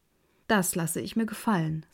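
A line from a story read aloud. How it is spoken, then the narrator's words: Plain. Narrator (German): sagte der Schneider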